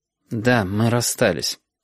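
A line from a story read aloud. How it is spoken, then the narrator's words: Said through gritted teeth. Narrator (Russian): сказал Сашка сквозь зубы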